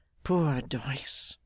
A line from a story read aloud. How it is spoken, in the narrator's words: sighed Arthur